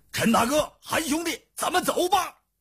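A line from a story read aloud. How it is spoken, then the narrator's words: Calling out. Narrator (Chinese): 叫道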